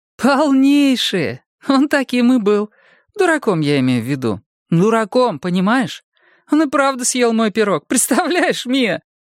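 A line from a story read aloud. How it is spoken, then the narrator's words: Laughing. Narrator (Russian): смеялась Карен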